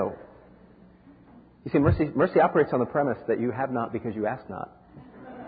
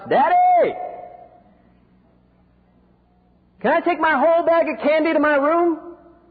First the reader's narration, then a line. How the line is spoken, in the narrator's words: She shouts